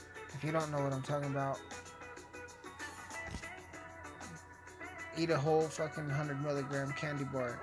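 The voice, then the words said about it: Slurred speech. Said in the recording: “I'm slurring.”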